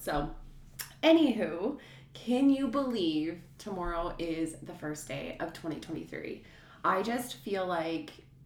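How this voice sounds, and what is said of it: Sick, strained voice with cough. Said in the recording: “apologize for my voice... sick for the last week... this cough that I have”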